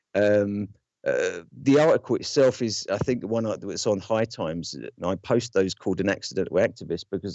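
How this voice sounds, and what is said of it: Non-native foreign accent. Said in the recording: “as my accent will probably give you a hint of, I'm probably the wrong person to be talking about veteran issues ... I'm an immigrant US citizen”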